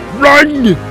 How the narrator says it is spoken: Tim shouted

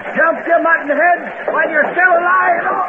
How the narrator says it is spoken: Cursing Dakota for opening fire, Hardluck shouted

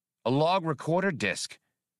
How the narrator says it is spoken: exclaimed Skinks

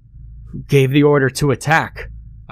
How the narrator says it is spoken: yelled angrily

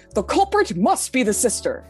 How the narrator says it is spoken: Taka exclaimed

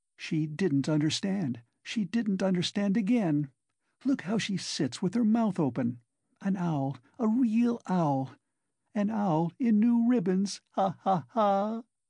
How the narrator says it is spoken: her laugh turned again to an insufferable fit of coughing

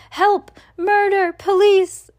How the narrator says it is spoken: screamed Mrs

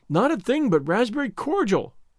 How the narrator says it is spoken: sobbed Anne

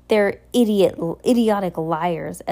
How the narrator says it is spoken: Esme cried

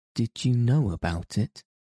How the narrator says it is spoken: asked Mary

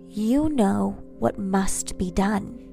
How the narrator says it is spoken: Lilith purred

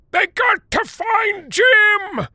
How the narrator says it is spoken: shouted the white guy

